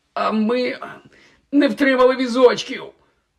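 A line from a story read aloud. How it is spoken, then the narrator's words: Groaning while rising. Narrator (Ukrainian): Простогнав, підводячись, Гаррі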